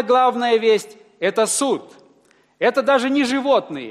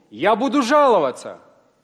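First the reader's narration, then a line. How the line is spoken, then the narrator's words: Accused man exclaiming. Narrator (Russian): обвиняемый человек воскликнул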